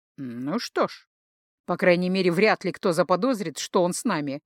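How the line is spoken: Wry snort. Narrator (Russian): хмыкнул Гархайт

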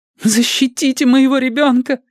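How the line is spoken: Pleading. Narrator (Russian): взмолился призрак

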